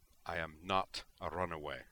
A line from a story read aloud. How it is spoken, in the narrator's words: she told Melandra coldly